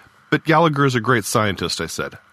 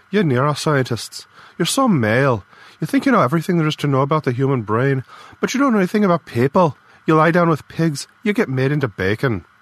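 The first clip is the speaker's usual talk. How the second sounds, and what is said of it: Strong Irish accent, angry. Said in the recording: “Her Irish accent got stronger when she was angry.”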